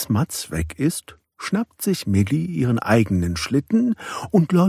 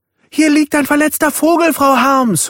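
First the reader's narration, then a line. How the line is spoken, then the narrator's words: Frightened call. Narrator (German): ruft er seine Lehrerin erschrocken herbei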